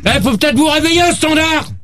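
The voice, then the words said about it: Shouting. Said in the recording (French): “arrête de crier”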